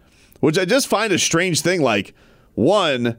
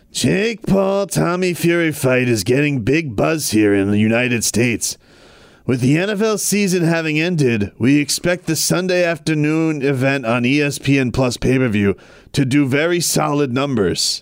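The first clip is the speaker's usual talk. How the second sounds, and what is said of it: Imitates another person's voice. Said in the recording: “I'm gonna do this in my Bob Arum voice.”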